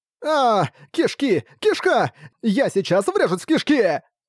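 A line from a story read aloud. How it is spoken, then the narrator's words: Yelling. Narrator (Russian): вопил Ракард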